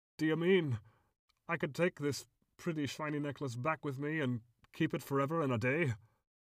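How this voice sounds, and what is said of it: Awestruck character voice. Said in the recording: “in an awestruck voice.”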